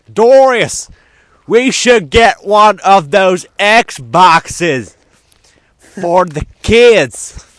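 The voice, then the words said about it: Weird put-on Southern accent. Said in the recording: “this accent ... I've done that weird southern thing”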